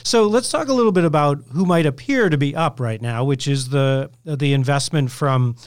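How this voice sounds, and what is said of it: Usual voice. Nothing is said of it.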